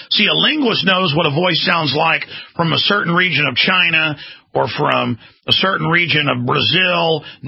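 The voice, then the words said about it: Old-style North Texas accent. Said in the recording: “what a Dallas, Texas accent sounds like. Sounds like me. This is what a Dallas, old-style North Texas sounds like.”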